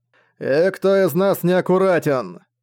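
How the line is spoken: Booming undead chuckle. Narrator (Russian): гулко хохотнул лич

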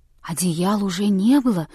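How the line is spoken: Frightened women's whisper. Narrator (Russian): повторили женщины испуганным шепотом

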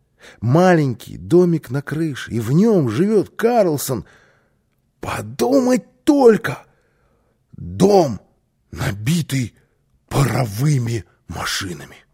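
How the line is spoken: Child exclaiming. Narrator (Russian): воскликнул малыш

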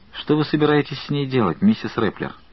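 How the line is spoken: Plain. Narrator (Russian): спросил Джим

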